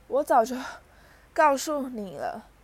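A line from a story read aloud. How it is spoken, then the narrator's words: Wheezing mumbled complaining. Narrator (Chinese): 奈威发出哮喘般的可怕声音，叽里咕噜地连连抱怨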